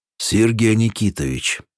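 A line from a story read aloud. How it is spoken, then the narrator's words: Solemn proclamation. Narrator (Russian): торжественно возгласил он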